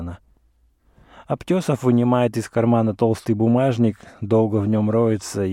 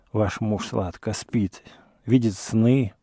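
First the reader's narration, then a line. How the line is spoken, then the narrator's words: Mumbling. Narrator (Russian): бормочет он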